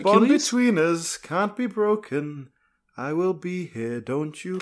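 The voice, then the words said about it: Sung impression of another singer. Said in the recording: “Good Phil Collins impression.”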